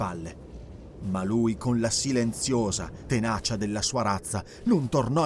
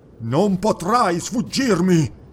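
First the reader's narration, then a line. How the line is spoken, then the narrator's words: Roared. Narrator (Italian): ruggì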